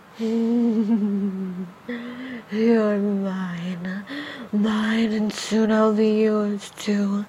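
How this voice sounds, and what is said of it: Demon voice. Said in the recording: “demon voice”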